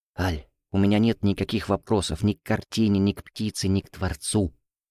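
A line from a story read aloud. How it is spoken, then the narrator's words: Very quiet. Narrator (Russian): произнес я так тихо, чтобы меня услышала только Аля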